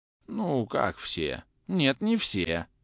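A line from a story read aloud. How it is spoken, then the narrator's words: Lazy remark. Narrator (Russian): лениво заметил Обломов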